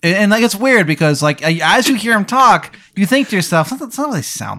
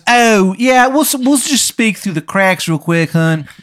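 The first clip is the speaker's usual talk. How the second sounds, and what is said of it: Bad imitation Maryland accent. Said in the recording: “it sounds like a bad impression of a Maryland accent.”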